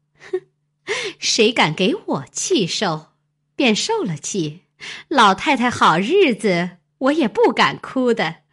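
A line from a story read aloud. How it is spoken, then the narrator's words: Laughing. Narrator (Chinese): 凤姐笑道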